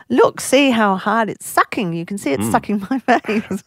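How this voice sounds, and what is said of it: Put-on Chinese accent. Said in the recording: “You really want to do your accent, don't you? ... a Chinese accent”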